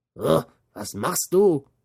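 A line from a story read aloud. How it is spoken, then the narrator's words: Angry devil shouting. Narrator (German): schrie der Teufel zornig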